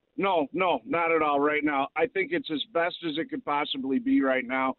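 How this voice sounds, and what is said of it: Distinctive regional accent. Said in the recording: “God, I love this accent.”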